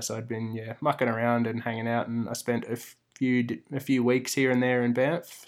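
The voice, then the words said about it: Australian accent. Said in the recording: “his accent. is Australian.”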